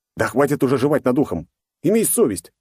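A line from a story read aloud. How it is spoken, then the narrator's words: Displeased bark. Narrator (Russian): недовольно рявкнул на Жоруна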